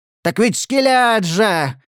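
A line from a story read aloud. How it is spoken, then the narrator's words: Inner voice yelling. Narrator (Russian): вопило его подсознание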